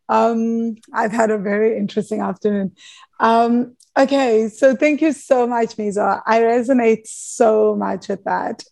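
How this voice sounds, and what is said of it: Hoarse, nearly lost voice. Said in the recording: “my voice is really gone ... It is. really trying to go.”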